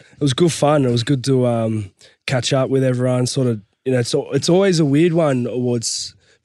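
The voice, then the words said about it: Husky voice. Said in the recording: “my voice is a little bit husky ... There is a bit of cold going around.”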